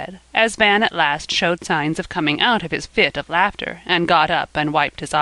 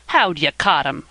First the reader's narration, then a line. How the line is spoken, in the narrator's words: asked Van, scornfully